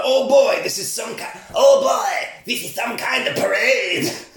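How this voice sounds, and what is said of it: Attempted impression of Duke's voice. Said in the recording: “I'm going to stop trying to do his voice.”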